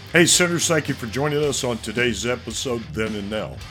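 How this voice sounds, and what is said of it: Slightly rough, hoarse voice. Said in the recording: “I sound a little rough, a little odd ... Allergies are kicking me”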